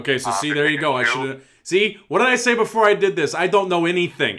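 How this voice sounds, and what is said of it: Put-on Italian mobster voice. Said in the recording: “I don't know why I'm doing an Italian mob voice”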